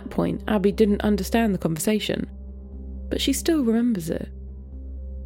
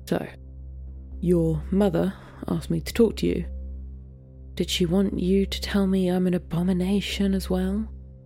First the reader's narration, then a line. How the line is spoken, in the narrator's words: sighs